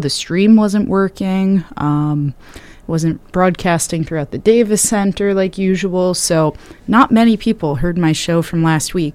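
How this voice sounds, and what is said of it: Slightly hoarse, recovering voice. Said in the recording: “I'm recovering from losing my voice a little bit”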